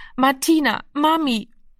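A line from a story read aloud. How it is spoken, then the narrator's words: Hoarse exhausted sobbing. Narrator (German): Heiser und kraftlos vor Erschöpfung sang er wieder auf die Stufen, schluchzend und hilflos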